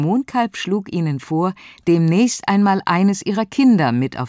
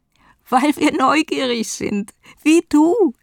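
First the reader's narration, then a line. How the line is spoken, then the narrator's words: Group giggling. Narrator (German): kicherten die Neugierigen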